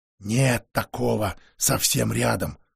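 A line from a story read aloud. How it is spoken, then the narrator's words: Whispered rebuke. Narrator (Russian): шепотом прикрикнул на него мастер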